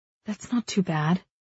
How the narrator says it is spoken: I murmur

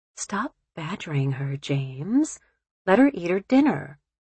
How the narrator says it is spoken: Marilyn said quietly

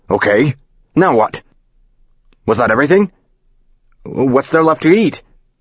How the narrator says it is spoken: The speakerphone is yelling

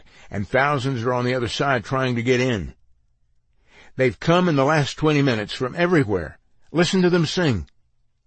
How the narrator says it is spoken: exclaimed

